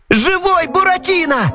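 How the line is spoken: Loud yell. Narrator (Russian): завопил Пьеро

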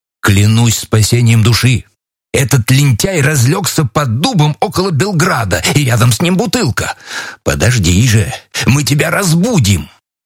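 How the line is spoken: Exclaimed. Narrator (Russian): Мой честный стрелок воскликнул

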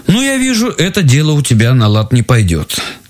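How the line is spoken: Plain. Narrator (Russian): сказал муж

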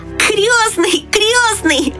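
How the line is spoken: Shout. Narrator (Russian): закричал он

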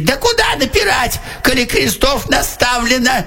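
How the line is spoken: Soldier's shout. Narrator (Russian): Солдат закричал

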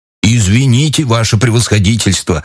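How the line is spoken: Plain, fat man. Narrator (Russian): ответил толстяк

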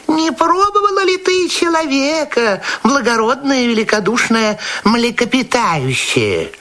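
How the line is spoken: Small sly voice. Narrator (Russian): маленькая хитренькая рыбка сказала ему маленьким хитреньким голосом

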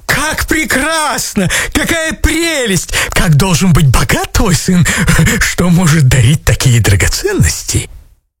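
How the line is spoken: Astonished exclamation. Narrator (Russian): вне себя от изумления они воскликнули

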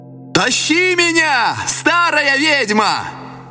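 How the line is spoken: Shout. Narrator (Russian): закричал

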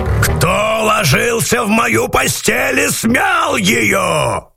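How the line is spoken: Low growl. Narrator (Russian): Зарычала Настасья Петровна не так громко

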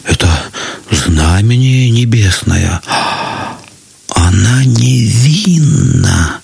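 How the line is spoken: Many voices whispering. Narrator (Russian): зашептали многие, но не смели сказать этого вслух

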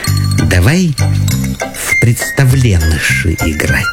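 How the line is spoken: Whisper, house spirit's daughter. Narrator (Russian): А домового дочка говорит шепотом

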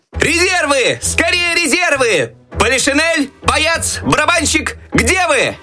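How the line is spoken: Desperate shout for help. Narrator (Russian): Так отчаянно кричал Щелкунчик, надеясь на помощь еще оставшихся в шкафу войск

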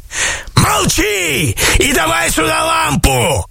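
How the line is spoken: Yelling sorcerer. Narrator (Russian): заорал колдун

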